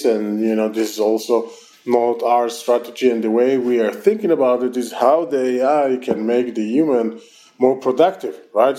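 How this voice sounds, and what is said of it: Strong Israeli accent. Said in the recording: “my terrible Israeli accent”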